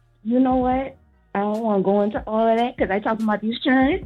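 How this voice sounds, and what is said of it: Geechee Low Country accent. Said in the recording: “I can hear the Geechee in your voice... You calling from the Low Country”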